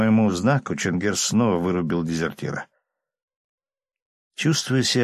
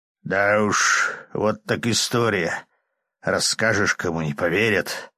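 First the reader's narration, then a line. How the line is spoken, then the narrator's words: Grumbling from behind. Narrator (Russian): проворчал за моей спиной Чингер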